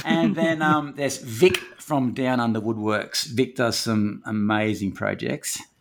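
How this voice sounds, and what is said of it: Speaks with a noticeable accent. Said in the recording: “That's just the accent. Sorry about that.”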